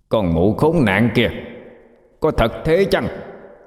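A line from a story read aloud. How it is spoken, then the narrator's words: Loud shout. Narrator (Vietnamese): Con ếch xanh lớn tiếng hét lên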